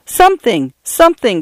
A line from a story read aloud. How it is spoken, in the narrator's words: cried Paula